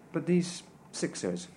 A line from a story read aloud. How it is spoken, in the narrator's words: I asked